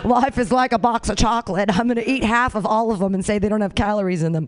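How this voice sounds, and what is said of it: Imitates a film character's voice. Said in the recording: “I gotta learn like how to do a Forrest Gump voice.”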